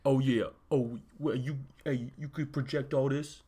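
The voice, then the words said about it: Imitates a TV character's voice. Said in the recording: “can you do that impression some more? ... That's how Boomer talks. ... Boomer is like a small-ish Asian woman who does not sound like that, as it turns out.”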